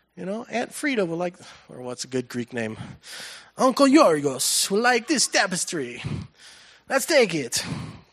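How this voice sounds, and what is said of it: Weak put-on Greek accent. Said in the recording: “That was not really a good Greek accent”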